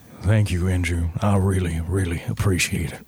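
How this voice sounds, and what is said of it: Deep-voiced put-on Southern US accent. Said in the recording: “give him a deep southern accent ... you're going deep in like timbre and south ... Southern Savannah ... Little foghorn”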